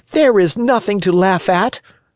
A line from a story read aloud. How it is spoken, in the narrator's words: cried Pinocchio angrily